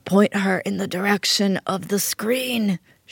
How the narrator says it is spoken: she croaked like a dying Don Corleone

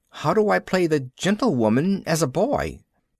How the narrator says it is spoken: I quavered

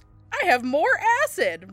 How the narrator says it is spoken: Ringo exclaimed

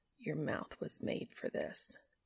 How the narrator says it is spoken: Cass whispered

